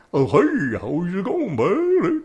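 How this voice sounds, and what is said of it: Imitates a dopey sidekick character's voice. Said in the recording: “That's what his voice is.”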